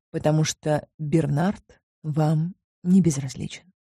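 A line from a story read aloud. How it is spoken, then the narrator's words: Quiet. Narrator (Russian): сказал я негромко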